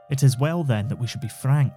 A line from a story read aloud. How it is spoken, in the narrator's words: said the other